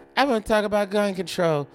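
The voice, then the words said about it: Kim Kardashian impression. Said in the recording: “Good impression, ... nailed the Kim K impression.”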